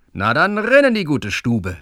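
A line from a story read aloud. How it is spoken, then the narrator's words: Called out. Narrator (German): rief er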